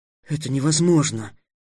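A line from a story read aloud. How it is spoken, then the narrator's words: Breathed out. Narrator (Russian): выдохнул Трикс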